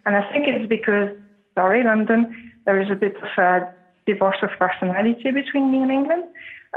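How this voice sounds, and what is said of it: Faint Scottish twang. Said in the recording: “you found the English twang, the Scottish twang behind my English speaking ... everyone said that I kind of had lost it”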